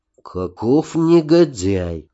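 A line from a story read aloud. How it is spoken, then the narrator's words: Through gritted teeth. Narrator (Russian): процедил Нарнах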